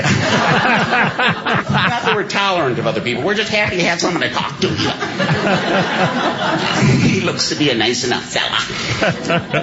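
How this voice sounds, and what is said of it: Put-on Wisconsin accent. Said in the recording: “I got the Wisconsin accent ... like Fargo”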